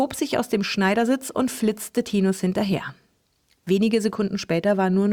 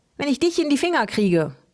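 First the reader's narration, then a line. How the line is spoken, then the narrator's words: Calling. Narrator (German): rief Helmi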